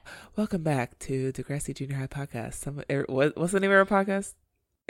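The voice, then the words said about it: Smooth public radio announcer voice. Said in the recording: “you do a really good like NPR voice. Like you should be on NPR.”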